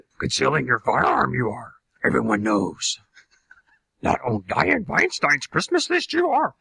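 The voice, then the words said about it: Yoda voice impression. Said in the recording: “Thank you, Yoda. ... Yoda. ... is a very, very good impressionist”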